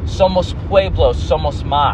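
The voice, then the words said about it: Spanish spoken with non-native accent. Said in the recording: “my little white Spanish accent. Or I should say my white attempt at Spanish accent.”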